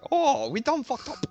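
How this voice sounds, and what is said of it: Put-on accent, self-described amateur. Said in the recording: “That is the only accent I can do. ... I can't do any of them. That's the best I've got.”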